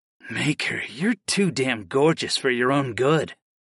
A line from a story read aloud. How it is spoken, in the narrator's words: breathed